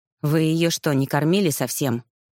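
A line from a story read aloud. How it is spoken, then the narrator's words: Contemptuous grumble. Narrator (Russian): буркнула Гризельда, презрительно скривив неприятное лицо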